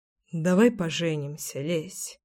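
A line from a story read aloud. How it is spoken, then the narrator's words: Sudden mumble. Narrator (Russian): вдруг пробормотал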